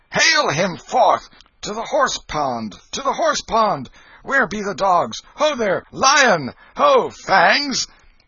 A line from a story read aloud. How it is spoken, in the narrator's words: A dozen shouted